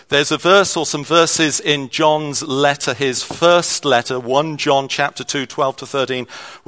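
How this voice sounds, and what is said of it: Accent picked up in England. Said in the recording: “you've spotted my accent ... I have lived in England for a little bit. ... I learned an accent there.”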